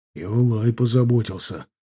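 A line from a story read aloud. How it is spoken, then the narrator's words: Whisper in ear. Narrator (Russian): шепнул ему на ухо Бажен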